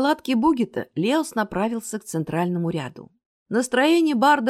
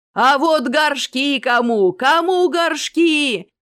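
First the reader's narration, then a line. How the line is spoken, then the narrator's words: Vendor shouting. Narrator (Russian): кричал длинноусый торговец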